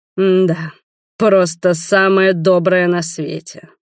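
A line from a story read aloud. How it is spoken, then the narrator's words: Angry growl. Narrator (Russian): зло прорычал дракон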